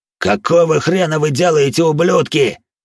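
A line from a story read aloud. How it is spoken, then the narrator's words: Roaring. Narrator (Russian): взревел Харви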